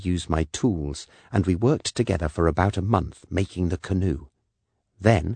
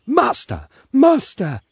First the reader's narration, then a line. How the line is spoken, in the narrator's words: he cried